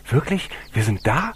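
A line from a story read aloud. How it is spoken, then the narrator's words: Excited call. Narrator (German): Karl rief aufgeregt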